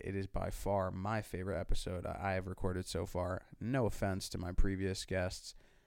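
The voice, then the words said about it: Sick, congested-sounding voice. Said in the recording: “I sound sick. ... That's because I am sick”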